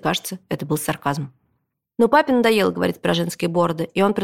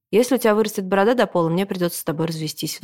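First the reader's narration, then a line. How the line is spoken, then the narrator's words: Father's sigh. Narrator (Russian): вздохнул папа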